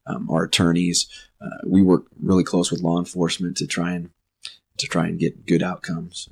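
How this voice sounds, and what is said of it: Rough, sick-sounding voice. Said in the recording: “Sorry for my voice.”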